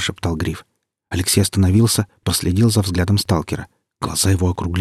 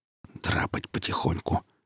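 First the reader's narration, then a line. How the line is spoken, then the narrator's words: Whispered reply. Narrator (Russian): шепотом ответил Гриф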